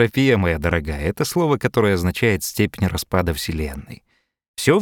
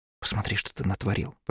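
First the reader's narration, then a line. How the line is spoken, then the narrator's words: Upset whisper. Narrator (Russian): прошептала расстроенная Джародина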